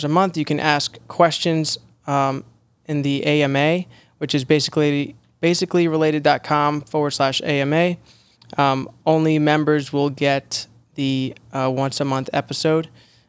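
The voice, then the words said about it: Hoarse, raspy sick voice. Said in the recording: “I apologize for my voice. I sound like I smoked a pack of cigarettes before this, but I've been ill.”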